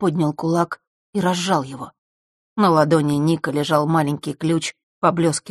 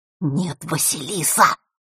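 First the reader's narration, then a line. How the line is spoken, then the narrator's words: Whisper. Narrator (Russian): Его голос опять перешел на шепот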